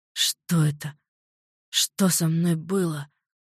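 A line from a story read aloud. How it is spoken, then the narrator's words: Hoarse wheeze. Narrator (Russian): Просипел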